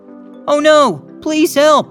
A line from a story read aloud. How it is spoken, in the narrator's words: began shouting